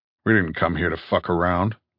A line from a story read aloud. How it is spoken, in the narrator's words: said Top quietly